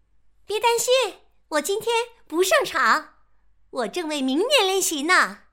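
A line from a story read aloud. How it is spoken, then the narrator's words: Shouting. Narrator (Chinese): 臭鼬大声喊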